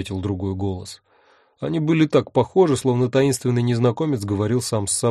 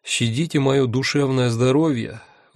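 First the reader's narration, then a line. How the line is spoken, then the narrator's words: Sighing. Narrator (Russian): вздохнул я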